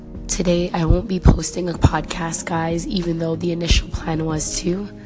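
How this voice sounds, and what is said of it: Hoarse, failing voice. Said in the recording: “me losing my voice”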